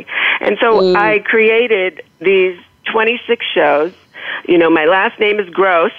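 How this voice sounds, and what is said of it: Slight accent. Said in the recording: “as you might detect, a little accent”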